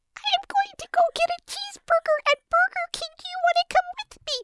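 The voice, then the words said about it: Very high-pitched voice. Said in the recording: “really high voice”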